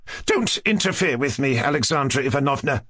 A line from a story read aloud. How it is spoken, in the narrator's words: snapped the mother